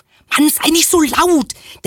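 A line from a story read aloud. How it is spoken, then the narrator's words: Nervous hiss. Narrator (German): Der Narbige blickte sich nervös um und zischte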